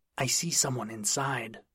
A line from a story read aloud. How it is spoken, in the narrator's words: he hissed